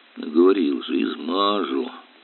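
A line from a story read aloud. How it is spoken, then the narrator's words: Grumbling mutter. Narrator (Russian): бурчал Илья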